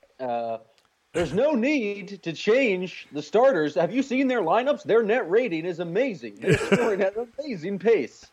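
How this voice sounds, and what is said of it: Bad Jay King impression. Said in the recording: “my best Jay King impression ... That was a pretty bad ... an absolutely atrocious Jay King impression”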